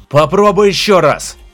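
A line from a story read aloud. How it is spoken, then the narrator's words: Shouting. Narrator (Russian): закричал Прайми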